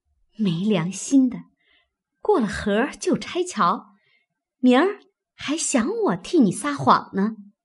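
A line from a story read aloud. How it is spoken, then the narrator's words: Through gritted teeth. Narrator (Chinese): 平儿咬牙道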